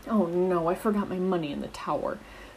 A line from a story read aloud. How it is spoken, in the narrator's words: groaned Peter